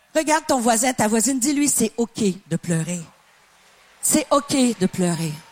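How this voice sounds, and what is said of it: Slight Québécois French accent. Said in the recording (French): “une Canadienne avec un petit accent québécois”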